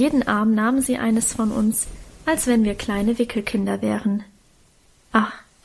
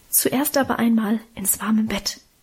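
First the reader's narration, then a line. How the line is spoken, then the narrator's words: Mother whispering. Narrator (German): flüsterte Mutter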